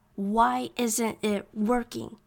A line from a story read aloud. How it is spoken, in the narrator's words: he growled